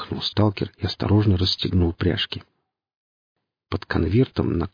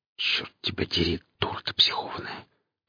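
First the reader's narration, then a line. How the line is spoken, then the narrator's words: Whisper. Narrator (Russian): прошептал сталкер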